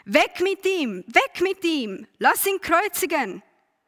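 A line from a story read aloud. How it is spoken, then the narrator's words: Crowd screaming. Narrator (German): sie schrien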